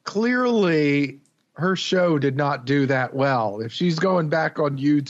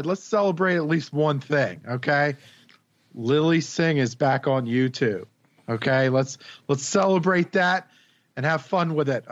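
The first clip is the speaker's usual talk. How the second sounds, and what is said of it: Sarcastic tone. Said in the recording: “hear the sarcasm in my voice”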